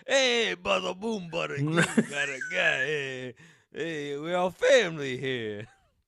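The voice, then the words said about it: Exaggerated Italian American accent. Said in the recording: “Put on some pizza, pasta accent ... Italian?”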